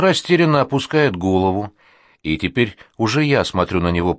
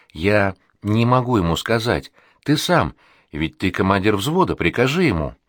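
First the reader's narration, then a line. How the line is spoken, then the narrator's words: Mumbling. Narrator (Russian): я бормочу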